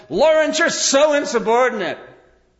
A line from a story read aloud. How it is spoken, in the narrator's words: he's yelling at him